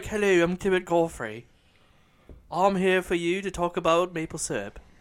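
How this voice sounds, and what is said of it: Prim, proper-sounding imitated voice. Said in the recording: “If he sounded like ... impersonation, like he's all proper and whatnot.”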